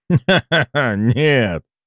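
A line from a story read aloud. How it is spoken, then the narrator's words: Laughing, old man. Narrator (Russian): рассмеялся патриарх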